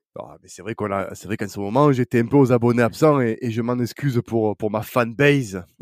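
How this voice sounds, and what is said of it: Sing-song southern French accent. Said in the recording (French): “ma douce, charmante voix et mon accent chantant, parce que je suis entouré que de, de faux sudistes”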